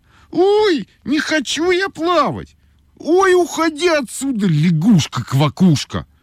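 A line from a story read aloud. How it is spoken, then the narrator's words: Shouting. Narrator (Russian): крикнула Ойка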